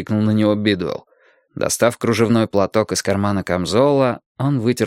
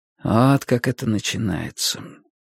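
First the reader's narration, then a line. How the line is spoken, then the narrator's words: Quiet. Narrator (Russian): тихо сказал Уинстон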